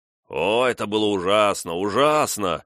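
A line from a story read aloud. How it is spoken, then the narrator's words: Exclamation. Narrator (Russian): воскликнул барон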